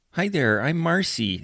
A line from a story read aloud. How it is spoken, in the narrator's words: the woman said, her voice a nasally whine